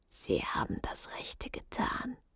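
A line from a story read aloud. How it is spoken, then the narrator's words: Whisper into ear. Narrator (German): als er ihr ins Ohr flüsterte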